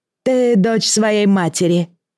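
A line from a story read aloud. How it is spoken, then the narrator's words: Said after laughing. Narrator (Russian): сказал он, вдоволь отсмеявшись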